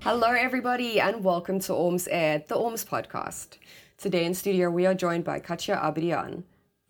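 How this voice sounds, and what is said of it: Slightly sick-sounding voice. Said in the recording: “today I am a little bit under the weather. So, if you hear it in my voice”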